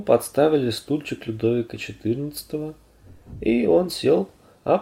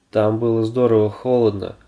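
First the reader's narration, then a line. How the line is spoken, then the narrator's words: Grumbling. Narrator (Russian): проворчал он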